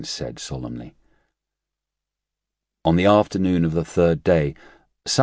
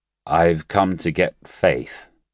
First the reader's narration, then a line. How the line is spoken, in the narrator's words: he slurred out